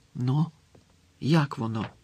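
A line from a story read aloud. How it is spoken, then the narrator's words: Whisper. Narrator (Ukrainian): прошепотіла Герміона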